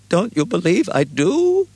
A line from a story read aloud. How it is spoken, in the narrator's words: Billings cried